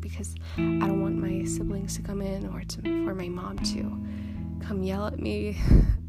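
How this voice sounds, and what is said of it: Soft, tired, quiet voice. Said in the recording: “this tone, and it's not my normal tone. I want to say it's my tired voice, soft voice. It's my podcast voice, ... in real life, it's not how I talk”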